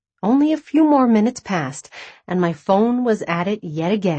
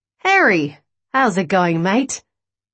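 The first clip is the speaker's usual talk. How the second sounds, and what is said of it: Strong Australian accent. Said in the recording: “The hint of Australian accent that lingered in the background was suddenly front and center.”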